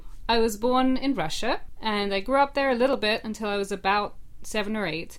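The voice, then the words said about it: British English accent. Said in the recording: “my family moved to England, which is what you should be hearing, because that's the accent that I'm supposed to have. That's the accent that I had for most of my life”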